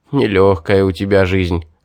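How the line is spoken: Laughing. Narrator (Russian): хохотнул Гелим

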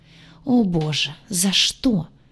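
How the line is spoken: Despairing moan. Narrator (Russian): простонала в отчаянии

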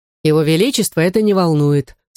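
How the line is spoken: Plain. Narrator (Russian): сказал мушкетер

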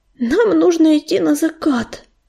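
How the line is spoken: Moaning. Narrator (Russian): простонал ежевика

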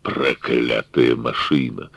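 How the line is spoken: Quiet grumble. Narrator (Russian): проворчал Конвей так тихо, что его услышал только я

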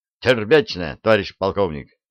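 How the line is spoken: Brisk crisp report. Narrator (Russian): бодро отчеканил Рыжков

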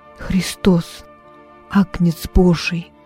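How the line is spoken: Whisper. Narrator (Russian): прошептал я

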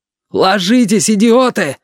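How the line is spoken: Father yelling. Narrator (Russian): заорал отец

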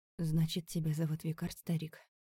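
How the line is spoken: Weak voice. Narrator (Russian): Слабым голосом спросил Аларик

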